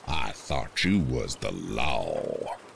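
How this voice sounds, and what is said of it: Thick, menacing Southern accent. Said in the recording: “He then says in a thick, menacing southern accent”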